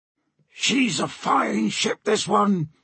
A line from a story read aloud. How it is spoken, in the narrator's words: he roared to the helmsman